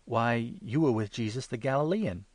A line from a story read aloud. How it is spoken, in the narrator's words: a maidservant came up to him and exclaimed